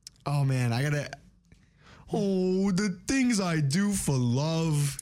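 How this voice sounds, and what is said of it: Courage the Cowardly Dog impression. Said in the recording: “I think I can do his voice.”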